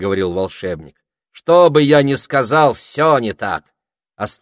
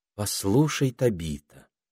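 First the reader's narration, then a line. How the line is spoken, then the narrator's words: Gentle but firm. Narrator (Russian): сказала она ласково, но решительно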